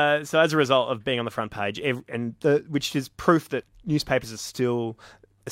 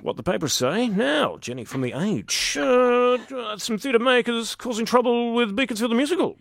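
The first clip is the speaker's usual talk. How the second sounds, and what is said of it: Imitates a radio host's voice. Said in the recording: “Very good at that impersonation ... Oh, I love my Tony Delroy.”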